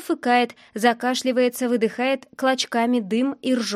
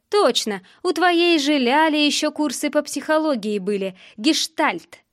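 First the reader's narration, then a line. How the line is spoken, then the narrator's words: Loud guffawing. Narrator (Russian): Он продолжая громко ржать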